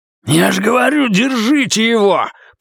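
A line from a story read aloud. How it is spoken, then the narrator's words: Growled. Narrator (Russian): прорычал Рэй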